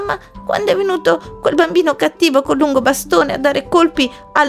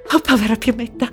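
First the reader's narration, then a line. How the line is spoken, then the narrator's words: Sighed. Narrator (Italian): sospirò la mamma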